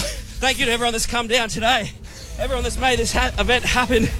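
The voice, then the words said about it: Out of breath, exhausted voice. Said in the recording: “I'm exhausted. ... out of breath,”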